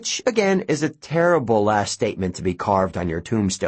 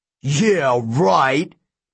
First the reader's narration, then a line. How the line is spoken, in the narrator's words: the king yelled